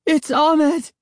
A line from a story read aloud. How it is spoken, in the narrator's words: Sari cried